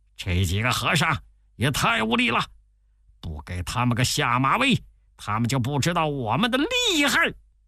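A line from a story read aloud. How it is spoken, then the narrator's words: Angry demon kings cursing. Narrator (Chinese): 三个妖王十分恼怒，大骂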